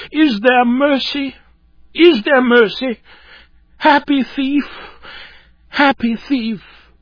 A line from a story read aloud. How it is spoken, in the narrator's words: with a look of despair he sobbed out